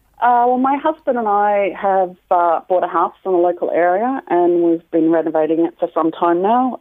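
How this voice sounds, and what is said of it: Australian accent. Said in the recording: “she thought it was an English accent ... a different accent ... I'm actually from Australia ... confused my accent for English or another nationality”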